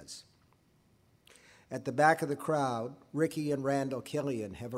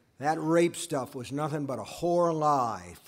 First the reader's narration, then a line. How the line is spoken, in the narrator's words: Frank says